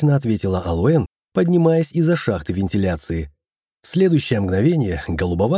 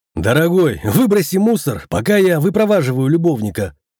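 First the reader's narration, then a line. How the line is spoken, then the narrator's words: Shouting. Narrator (Russian): крикнул я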